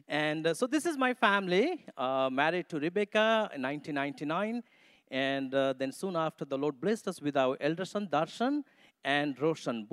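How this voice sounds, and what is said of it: Nepali-accented English. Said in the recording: “English is not my mother tongue ... you have to tune your ears, you know, to understand my Nepali accent English”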